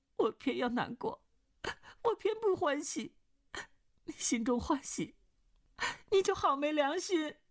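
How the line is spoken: Crying. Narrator (Chinese): 穆婉清哭道

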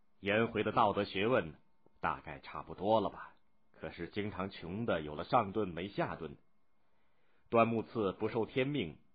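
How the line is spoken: Wistful, satisfied sigh. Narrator (Chinese): 孔子对子贡有自知之明，很满意，但是又情不自禁的感叹道

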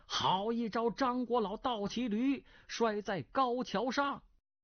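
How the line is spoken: Someone crying out. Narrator (Chinese): 有人叫了起来

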